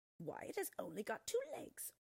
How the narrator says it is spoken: they scoffed

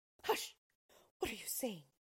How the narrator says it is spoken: cried the father

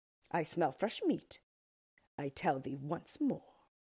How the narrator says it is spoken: replied the orc, looking crossly at his wife

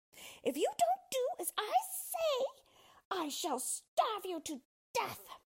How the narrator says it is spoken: shouted at him

